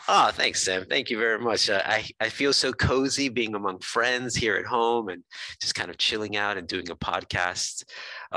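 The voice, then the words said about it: American accent. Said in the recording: “we have different accents and I have an American accent.”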